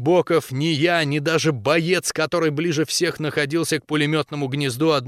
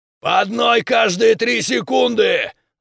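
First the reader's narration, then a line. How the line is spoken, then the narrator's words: Yelled. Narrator (Russian): заорал Зубарь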